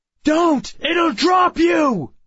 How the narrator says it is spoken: I shouted

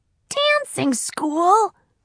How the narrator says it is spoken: Sport squeaked

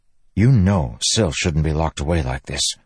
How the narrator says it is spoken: Kaladin said softly

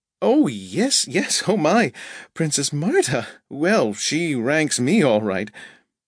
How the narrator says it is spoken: said Rhoda with a nervous giggle

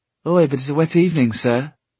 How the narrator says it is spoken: said the boy cheerfully as he grew nearer

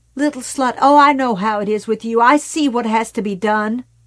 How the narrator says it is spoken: Screaming

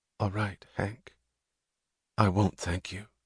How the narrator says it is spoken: the tone of her voice making it a lie

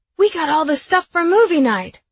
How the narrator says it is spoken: Beck yelled

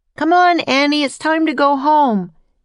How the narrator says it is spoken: yelled Jack

